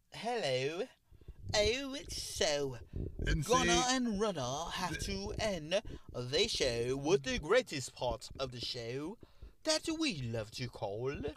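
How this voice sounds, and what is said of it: Put-on British accent. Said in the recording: “let us end the show with a British accent.”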